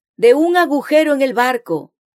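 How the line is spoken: Soldier shouting. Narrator (Spanish): el soldado gritó

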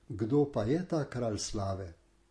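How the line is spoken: Cheerful answer. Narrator (Slovenian): Stražarji so jim veselo odgovorili

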